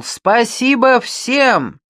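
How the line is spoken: Loud shout. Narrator (Russian): Он громко крикнул

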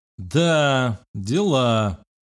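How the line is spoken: Disappointed drawl. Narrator (Russian): протянул разочарованно я

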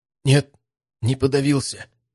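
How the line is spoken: Strained, forced out. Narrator (Russian): выдавил парень наконец первые слова

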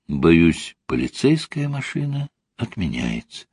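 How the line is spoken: Quiet. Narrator (Russian): тихо сказала Ольга

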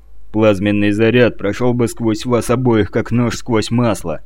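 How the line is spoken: Grim declaration. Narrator (Russian): мрачно заявил Витковский

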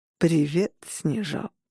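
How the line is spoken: Purring. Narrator (Russian): промурлыкал Адам Пирс

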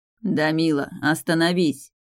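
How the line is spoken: Growled. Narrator (Russian): рыкнул Эйрин

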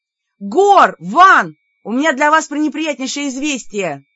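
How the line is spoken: Loud shout. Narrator (Russian): громко крикнула

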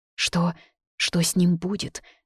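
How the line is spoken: Trembling question. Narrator (Russian): дрожащим голосом спросила Акиба

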